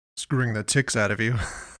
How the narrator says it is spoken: he said and laughed

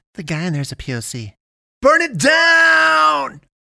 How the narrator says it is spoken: Someone somewhere else screamed in ecstasy

